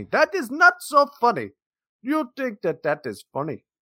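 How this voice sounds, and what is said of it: Poor put-on Indian accent. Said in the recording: “That is almost to my Indian accent today. That is... it's so hard to do that and then not slip into the African accent ... You're just bad at doing Indian accents”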